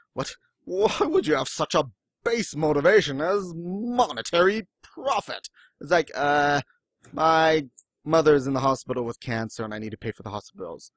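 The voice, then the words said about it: Smarmy British accent drifting Southern. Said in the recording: “that smarmy British accent turned into a southern accent”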